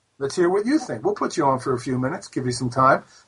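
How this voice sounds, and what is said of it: American East Coast accent. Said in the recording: “my East Coast accent, which is fine, since I grew up on the East Coast”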